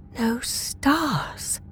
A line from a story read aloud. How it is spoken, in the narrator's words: I whispered